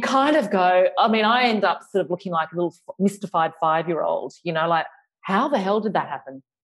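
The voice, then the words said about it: Australian accent with a lisp. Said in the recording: “With all my lisping and my Australian accent.”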